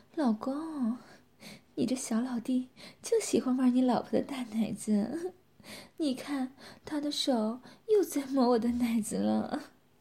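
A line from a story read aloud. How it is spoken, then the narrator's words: Laughing. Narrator (Chinese): 佳瑶笑着说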